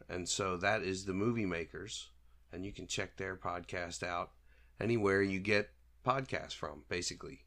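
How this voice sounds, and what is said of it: Sick, rough-sounding voice. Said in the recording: “pardon my voice. I'm a little sick, um, or I've been a little sick. I'm getting over it, but my voice is still kind of messed up.”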